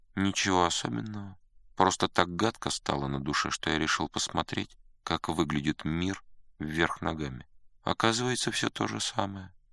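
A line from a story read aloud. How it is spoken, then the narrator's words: Unexpectedly calm reply. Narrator (Russian): Раб, протирая глаза, ответил неожиданно спокойно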